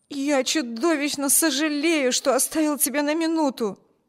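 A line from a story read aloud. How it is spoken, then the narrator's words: Exclaimed. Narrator (Russian): воскликнул Виберт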